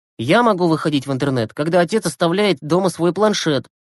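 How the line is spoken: Grumbling. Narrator (Russian): пробурчал Глеб

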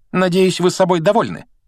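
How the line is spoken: Sharp. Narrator (Russian): резко произнесла она

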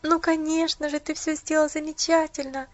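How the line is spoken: Sobbing. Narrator (Russian): всхлипнула Поллианна

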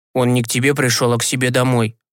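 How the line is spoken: Smirking snort. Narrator (Russian): хмыкнул Степка

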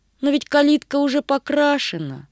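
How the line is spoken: Regretful sigh. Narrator (Russian): с сожалением вздохнула Агата

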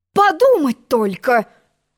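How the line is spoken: Exclamation. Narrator (Russian): Воскликнула она

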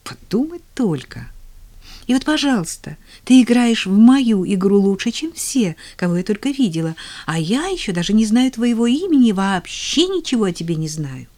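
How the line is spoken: Awed exclamation. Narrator (Russian): воскликнула она чуть ли не с благоговением в голосе

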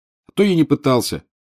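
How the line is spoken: Snapping. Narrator (Russian): огрызнулся Гарри

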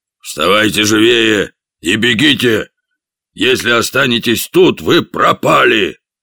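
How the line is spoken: Hoarse command. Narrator (Russian): хрипло скомандовал

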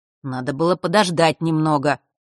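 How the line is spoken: Muttering grumble. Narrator (Russian): пробурчал тот

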